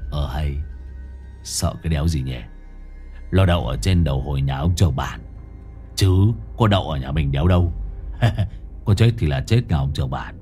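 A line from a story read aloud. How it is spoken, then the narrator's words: Muttered with a silly laugh. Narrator (Vietnamese): Gã cười ngờ ngạch lẩm bẩm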